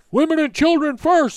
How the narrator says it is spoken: someone shouted

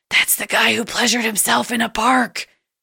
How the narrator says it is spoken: we whispered to him

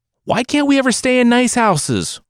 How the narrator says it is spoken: One cried

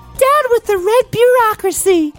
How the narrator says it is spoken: Romilda whined in a snotty voice

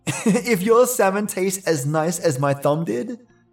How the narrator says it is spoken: he laughed

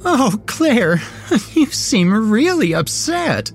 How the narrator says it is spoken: giggled the thing on the bed

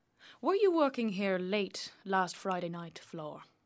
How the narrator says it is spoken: Jim continues, rather coldly

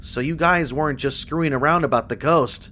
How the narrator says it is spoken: James said eventually

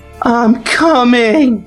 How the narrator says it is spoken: screamed Selfie

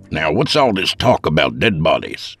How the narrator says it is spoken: Seth grunted

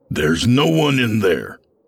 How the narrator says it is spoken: I growled

